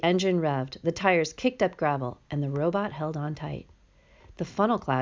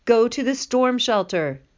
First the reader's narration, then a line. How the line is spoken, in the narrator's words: hollered in her loudest voice